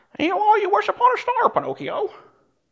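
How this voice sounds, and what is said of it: Cartoon cricket character voice. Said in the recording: “That was a really good impersonation. ... You were spot on there, Pastor. That was Jiminy Cricket”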